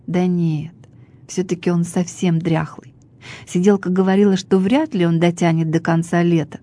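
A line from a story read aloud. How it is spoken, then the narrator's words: Plain. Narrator (Russian): сказала студентка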